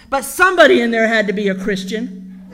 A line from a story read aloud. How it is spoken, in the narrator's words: he barked at them